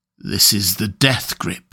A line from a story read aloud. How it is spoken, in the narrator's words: he muttered